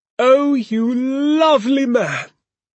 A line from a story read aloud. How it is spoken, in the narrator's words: cried Mrs